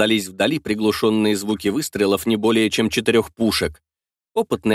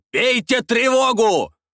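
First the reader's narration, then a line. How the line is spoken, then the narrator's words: Shouted. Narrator (Russian): выкрикнул Слейд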